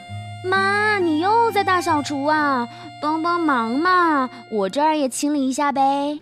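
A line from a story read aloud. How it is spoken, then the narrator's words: Shouting loudly. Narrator (Chinese): 他用力大叫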